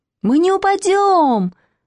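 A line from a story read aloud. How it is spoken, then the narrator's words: Shouting in unison. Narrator (Russian): закричали Костя, Катя и Маня в один голос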